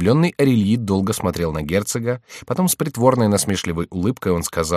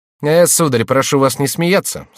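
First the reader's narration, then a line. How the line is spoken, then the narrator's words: Dry, curt. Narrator (Russian): сказал сухо Франсуа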